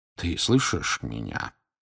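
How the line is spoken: Quiet question. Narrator (Russian): тихо спросил Дамблдор

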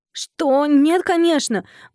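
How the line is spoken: Indignant hiss. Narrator (Russian): возмущенно зашипела я

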